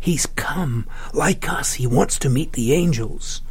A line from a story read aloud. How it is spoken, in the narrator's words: Laurita whispered